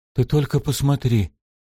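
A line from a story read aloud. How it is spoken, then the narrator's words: Breathless. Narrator (Russian): выдохнул Шем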